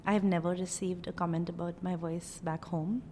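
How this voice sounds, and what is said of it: Indian accent. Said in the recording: “I'm originally from Bombay, India ... people are perplexed by my accent”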